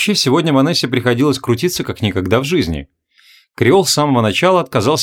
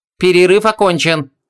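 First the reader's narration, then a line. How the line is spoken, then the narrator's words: Exclamation. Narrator (Russian): воскликнул Мурок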